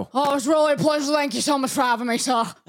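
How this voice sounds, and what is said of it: Goofy interview character voice, possibly British. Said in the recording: “you had the new voice this week... It's my interview character... Wait. Is it a British person?... No, it's just a goof.... It can be.”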